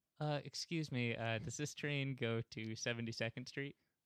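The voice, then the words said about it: Put-on British accent. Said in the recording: “he comes up to me in a British accent. I still can't do a British accent. Say this to me”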